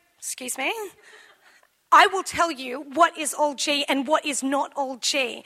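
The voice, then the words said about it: Stern teacher voice. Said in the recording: “I do a good teacher voice”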